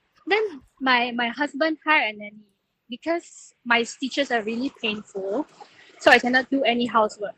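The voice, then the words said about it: Strong Chinese-sounding accent. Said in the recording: “you have the most Chinese accent”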